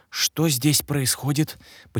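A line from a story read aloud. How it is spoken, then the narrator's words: Whispered question. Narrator (Russian): почему-то шепотом спросил я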